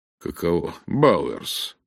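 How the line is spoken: Muttering. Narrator (Russian): пробормотал Рейс

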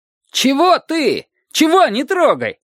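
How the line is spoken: Shout. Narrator (Russian): закричал Петька

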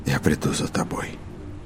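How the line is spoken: Quiet promise. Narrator (Russian): прежним тихим голосом пообещал Роланд

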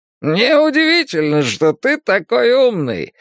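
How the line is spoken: Coyote's cheerful laughing remark. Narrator (Russian): заметил койот и весело засмеялся

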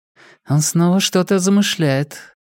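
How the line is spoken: Muttered. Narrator (Russian): пробормотала Инеж

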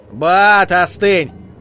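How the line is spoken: Shouting. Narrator (Russian): Кто-то еще закричал

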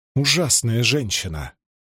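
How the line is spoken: Grumbling. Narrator (Russian): проворчала Найниф

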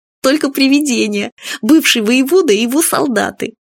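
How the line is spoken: Giggling. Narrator (Russian): Фадейка хихикнул

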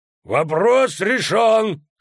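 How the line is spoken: Loud. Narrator (Russian): сказал он, громко

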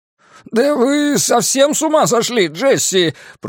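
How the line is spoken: Groaned. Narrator (Russian): простонал Островский

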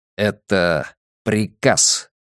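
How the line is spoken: Through clenched teeth. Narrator (Russian): процедил Де Соя

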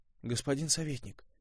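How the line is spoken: Quiet inquiry. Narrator (Russian): тихо поинтересовался Костя

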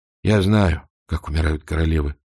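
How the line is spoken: Gruff mutter. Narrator (Russian): буркнул он

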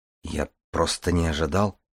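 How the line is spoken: Embarrassed mumble. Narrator (Russian): пробормотал Дар, смущенный похвалой

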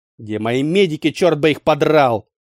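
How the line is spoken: Angry retort. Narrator (Russian): Зло бросил Вальенштейн

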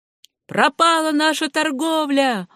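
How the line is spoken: Old man yelling. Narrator (Russian): вопил старый Джон Рукестл, контрабандист

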